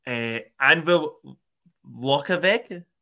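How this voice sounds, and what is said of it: Put-on Scottish accent. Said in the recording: “In my best Scottish accent”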